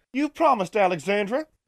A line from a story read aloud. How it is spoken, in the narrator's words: answered with laughter, then forbearance said